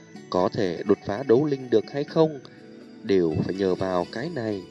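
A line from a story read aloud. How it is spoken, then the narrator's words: Soft speech. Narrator (Vietnamese): nhẹ giọng nói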